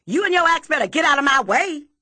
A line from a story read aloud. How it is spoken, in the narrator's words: I wrinkle my face as mean as I can, pull my lips across my teeth and yell